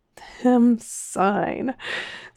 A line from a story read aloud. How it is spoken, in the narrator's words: sighed Mr